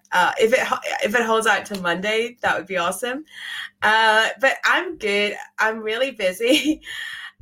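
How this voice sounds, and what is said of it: Slightly hoarse, fading voice. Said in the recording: “I don't know if anyone can notice, but I feel like I'm losing my voice a bit”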